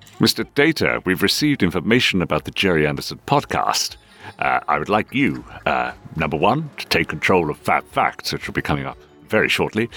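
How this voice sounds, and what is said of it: Patrick Stewart impression as Captain Picard. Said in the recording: “performed in the style of Captain Jean-Luc Picard of the Enterprise ... briefing the crew of the Enterprise for an upcoming away mission ... your Patrick Stewart impression”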